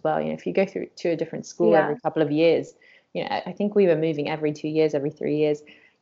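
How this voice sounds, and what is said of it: English accent. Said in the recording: “You've got such an English accent”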